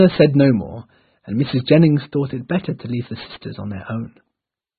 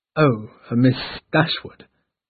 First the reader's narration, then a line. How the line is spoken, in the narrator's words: started hesitantly